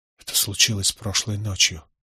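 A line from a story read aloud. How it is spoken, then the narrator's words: Whispered. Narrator (Russian): прошептал я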